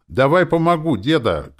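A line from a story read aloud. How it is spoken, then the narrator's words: Shouting. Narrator (Russian): кричал он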